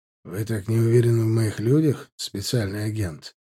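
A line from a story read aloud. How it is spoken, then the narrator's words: Displeased, husky. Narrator (Russian): недовольным, хрипловатым голосом спросил Хайдер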